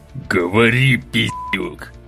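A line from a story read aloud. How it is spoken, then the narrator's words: Growling in the face. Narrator (Russian): прорычал он мне в лицо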